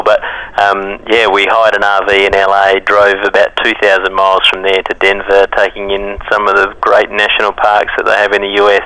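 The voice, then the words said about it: Australian accent. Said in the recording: “that Australian accent ... Just a bit of a convict accent.”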